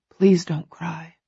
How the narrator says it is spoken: he whispers

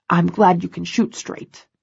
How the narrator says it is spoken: says, his voice gruff

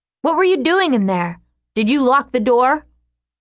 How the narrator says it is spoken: she shouts it

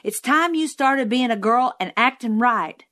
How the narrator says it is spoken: Jim hollered

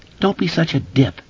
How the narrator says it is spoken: replied uneasily to himself

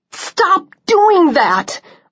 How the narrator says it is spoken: I cried

